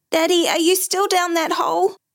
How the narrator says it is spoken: His voice trembling, he shouted

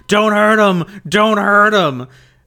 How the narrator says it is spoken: shouting

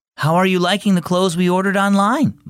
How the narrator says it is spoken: Mom asked

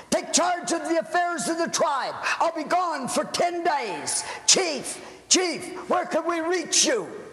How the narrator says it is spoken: Chief Umsutuga shouted

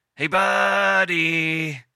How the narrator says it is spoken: he called out of the window

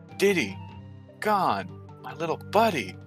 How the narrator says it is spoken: he murmured to himself

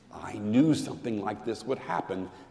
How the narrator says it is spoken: Alice Wendelken whispered

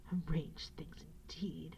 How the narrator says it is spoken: he said bitterly to himself

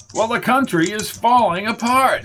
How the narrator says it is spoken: shouted Mundy

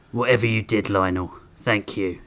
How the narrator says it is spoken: Grissom muttered

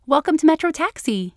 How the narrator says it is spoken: the car cheerfully said

